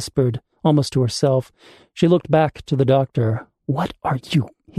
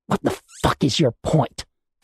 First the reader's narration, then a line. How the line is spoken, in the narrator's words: Tally spat, anger taking over from shock